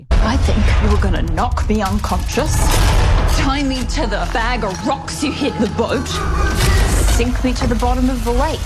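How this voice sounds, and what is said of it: British-sounding accent. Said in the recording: “In your stupid accent. It's like British crossed with the devil.”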